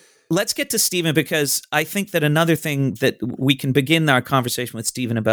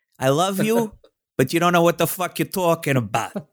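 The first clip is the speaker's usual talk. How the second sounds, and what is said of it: Put-on Brooklyn accent. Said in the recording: “I'm going to say this in a Brooklyn accent.”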